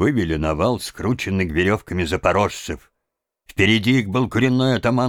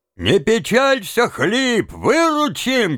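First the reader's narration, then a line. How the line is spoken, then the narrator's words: Group shouting from below. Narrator (Russian): кричали ему снизу казаки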